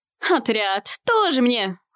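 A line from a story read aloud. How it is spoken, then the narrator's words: Snort. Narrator (Russian): фыркнул Лазартан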